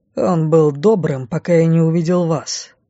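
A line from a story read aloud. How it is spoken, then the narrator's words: Rude rebuke, man. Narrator (Russian): Грубо одернул меня мужчина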